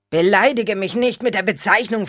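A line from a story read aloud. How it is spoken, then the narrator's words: Vampire's mocking sneer. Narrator (German): höhnte der Vampir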